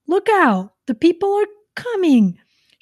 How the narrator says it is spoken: shouted the gander

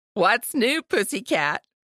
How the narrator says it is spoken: Aunt Star roared with laughter on the other end of the line

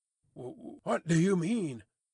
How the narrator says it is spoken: Barsad stammered

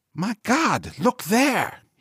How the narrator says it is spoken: cried

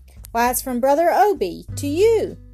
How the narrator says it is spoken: exclaimed

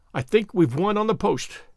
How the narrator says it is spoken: he said

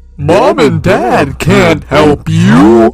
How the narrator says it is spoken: chuckled and said in his demonic voice

